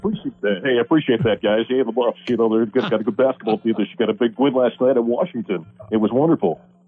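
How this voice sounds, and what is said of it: Spot-on Mark Johnson impression. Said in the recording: “That's a solid impression... That's an incredible impersonation. I'm floored with how spot on that is.”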